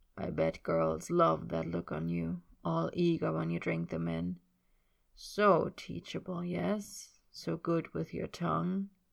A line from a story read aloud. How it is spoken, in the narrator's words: Yarda can't resist saying so, murmur